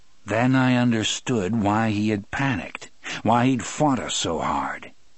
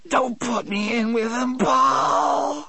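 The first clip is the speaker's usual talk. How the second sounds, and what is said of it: Hoarse, wet whisper. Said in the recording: “he whispered in a hoarse, wet voice.”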